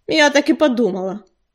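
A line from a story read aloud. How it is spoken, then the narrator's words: Snorted. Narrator (Russian): фыркнула Кисточка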